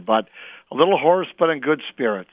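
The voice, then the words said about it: Slightly hoarse voice. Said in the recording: “I'm a little hoarse from being a good Spartan on Saturday night”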